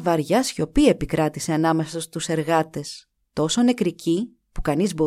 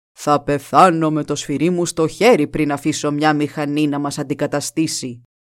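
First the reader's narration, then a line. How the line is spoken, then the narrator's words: Fearless and stern. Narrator (Greek): είπε ατρόμητα και αυστηρά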